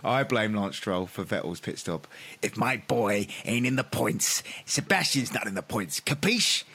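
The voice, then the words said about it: Imitates another person's voice. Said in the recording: “my Lance Stroll impression is very good”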